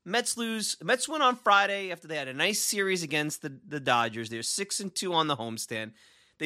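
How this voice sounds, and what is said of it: New York Long Island accent. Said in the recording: “sometimes I say it with the Long Islandese, sometimes I say it with the Brooklynese ... My accent is my accent.”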